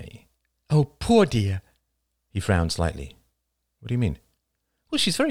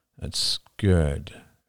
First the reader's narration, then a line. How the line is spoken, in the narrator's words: murmured Oliver